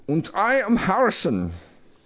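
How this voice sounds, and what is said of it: Put-on German accent. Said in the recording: “Like that German accent. You sound like the doctor in Dr. Strangelove.”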